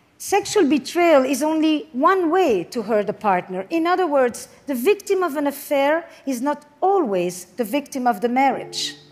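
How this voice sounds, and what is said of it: French-sounding accent. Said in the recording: “She has a French accent.”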